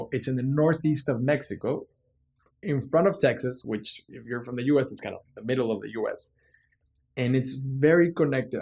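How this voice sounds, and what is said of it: Mexican Spanish accent in English. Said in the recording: “That's where my accent comes”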